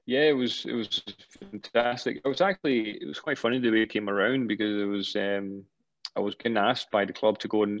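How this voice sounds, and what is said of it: Glaswegian accent. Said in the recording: “You've got a Glaswegian accent now.”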